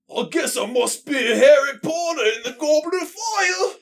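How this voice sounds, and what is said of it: Put-on British accent. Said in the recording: “You didn't do the accent right. ... That's it.”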